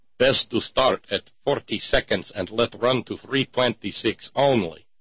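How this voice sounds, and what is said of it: Exaggerated Russian accent, broken English. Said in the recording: “switch to best Russian accent.”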